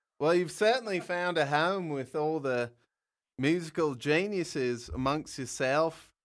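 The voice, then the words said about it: English accent. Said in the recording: “I hear myself and it gets in the English accent”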